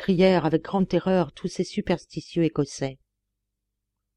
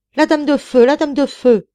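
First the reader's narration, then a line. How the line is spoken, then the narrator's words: Frightened fishermen and peasants shouting. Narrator (French): criaient les pêcheurs et les paysans effarés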